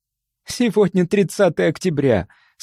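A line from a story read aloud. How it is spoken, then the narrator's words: Speaking then laughing. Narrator (Russian): сказала и снова засмеялась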